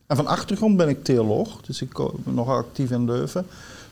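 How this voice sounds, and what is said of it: Light Flemish accent. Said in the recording (Dutch): “lichte accent nog ... Ja, het Vlaamse accent.”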